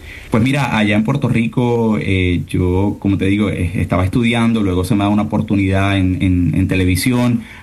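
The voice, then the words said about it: Deep radio announcer voice. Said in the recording (Spanish): “tienes voz de locutor.”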